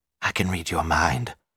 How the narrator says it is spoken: she said huskily

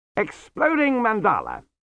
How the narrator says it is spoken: said Q happily

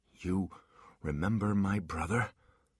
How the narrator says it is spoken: He asked, his voice shaking

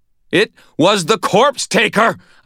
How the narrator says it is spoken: shouted

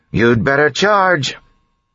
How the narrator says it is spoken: she yelled

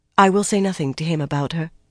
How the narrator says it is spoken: Varen agreed quickly

